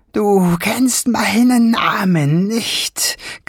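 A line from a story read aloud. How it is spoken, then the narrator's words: Shrieking. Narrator (German): kreischte er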